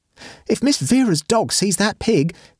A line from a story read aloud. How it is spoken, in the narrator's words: exclaimed the maid